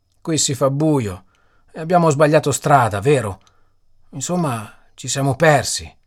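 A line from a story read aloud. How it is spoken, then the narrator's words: Almost whimpering question. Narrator (Italian): chiese quasi piagnucolando Willy Bells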